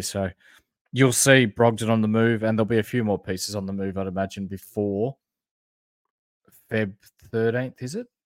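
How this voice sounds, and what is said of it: Broad Australian accent. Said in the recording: “our flamboyant Bogan accents,⟧ we're Australian”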